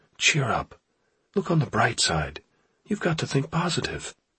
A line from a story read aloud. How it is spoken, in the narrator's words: a woman's voice whispers